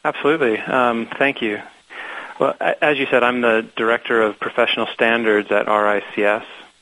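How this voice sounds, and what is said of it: American Seattle accent. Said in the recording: “some of your listeners might be expecting a British accent, but you are hearing an accent from Seattle”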